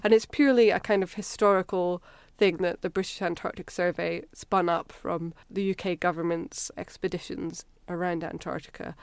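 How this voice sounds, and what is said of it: Slight Scottish accent. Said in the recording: “I can detect a bit of an accent coming from you. Are you Scottish? ... I am. I grew up in Edinburgh.”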